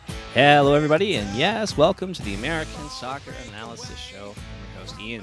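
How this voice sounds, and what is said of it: Smooth, soothing radio announcer voice. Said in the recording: “radio voice ... one of the best radio voices in the soccer podcast ... that nice soothing tones”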